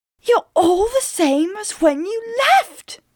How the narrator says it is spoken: cried

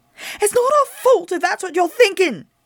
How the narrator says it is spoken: she cried

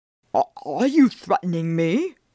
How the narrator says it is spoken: said in a choked voice

